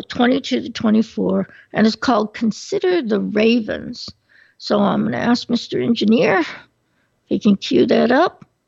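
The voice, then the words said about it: Strained, failing voice. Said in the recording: “I'm sorry, my voice is going.”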